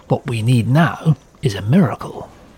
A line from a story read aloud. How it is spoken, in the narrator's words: Hugh Dowding, stuffy to his men, was muttering